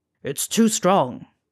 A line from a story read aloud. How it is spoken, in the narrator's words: in surprise, snarling